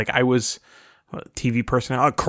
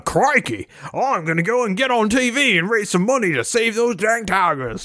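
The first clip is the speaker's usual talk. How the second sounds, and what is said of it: Poor Steve Irwin Australian accent, drifting Southern. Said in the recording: “I just went Southern or something... I'm bad at accents... I was Steve Irwin”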